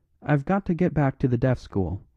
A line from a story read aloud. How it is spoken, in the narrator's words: said Father Brown